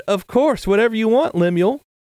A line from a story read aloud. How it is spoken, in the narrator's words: she happily replied